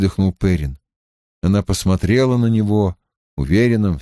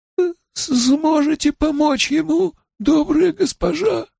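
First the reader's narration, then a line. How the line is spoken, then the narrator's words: Hoarse question. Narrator (Russian): хрипло спросил он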